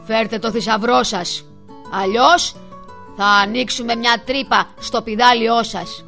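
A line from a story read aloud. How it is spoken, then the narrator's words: Bellowing huge rhinoceros. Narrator (Greek): μούγκρισε ένας τεράστιος ρινόκερος που ήταν ο καπετάνιος των πειρατών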